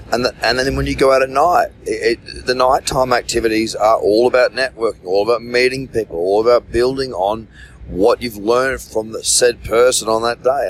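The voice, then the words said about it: Worn-out, strained hoarse voice. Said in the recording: “you can probably hear it in my voice right now. I mean, my voice is absolutely cactus. Really, really struggling on the voice department.”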